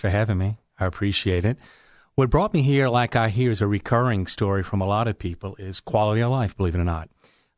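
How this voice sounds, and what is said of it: New Orleans accent. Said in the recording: “If people are listening to this accent, I'm originally from New Orleans.”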